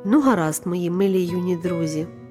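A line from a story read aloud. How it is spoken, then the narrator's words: Plain. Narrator (Ukrainian): сказала Селестина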